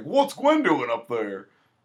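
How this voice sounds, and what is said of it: Imitates another person's voice. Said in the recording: “my James Cromwell impression. ... Nailed it.”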